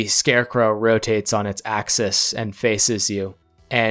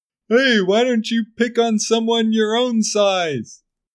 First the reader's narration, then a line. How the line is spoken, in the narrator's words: just yell out